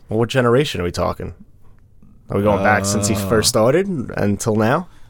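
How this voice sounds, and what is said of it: Slips into a Boston accent. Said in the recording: “Why did you just have a Boston accent there?”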